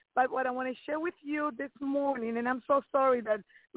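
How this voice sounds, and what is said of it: Accented, hoarse sick-sounding voice. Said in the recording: “my accent and I got kind of sick, my throat is hurting a little bit”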